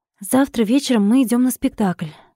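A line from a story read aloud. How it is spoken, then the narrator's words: Slightly unsure remark. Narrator (Russian): слегка неуверенно бросила Катя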